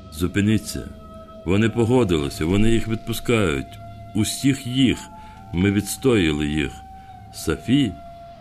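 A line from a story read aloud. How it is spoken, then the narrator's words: Plain. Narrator (Ukrainian): сказала Лена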